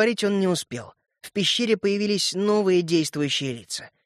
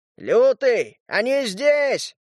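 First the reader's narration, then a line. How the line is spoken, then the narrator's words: Servile shout. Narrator (Russian): подобострастно выкрикнул Щуп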